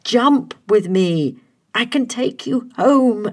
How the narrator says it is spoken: Adam pleaded

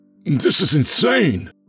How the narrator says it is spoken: Ron sputtered

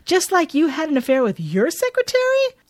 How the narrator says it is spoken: She shouts

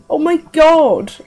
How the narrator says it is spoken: I cried, beside myself

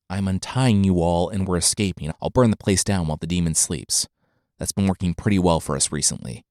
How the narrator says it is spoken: a voice whispered in the dark

